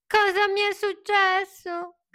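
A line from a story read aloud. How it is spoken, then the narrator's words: Crying out. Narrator (Italian): gridò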